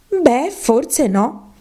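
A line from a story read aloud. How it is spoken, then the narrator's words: Conciliatory. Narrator (Italian): disse Alice in tono conciliante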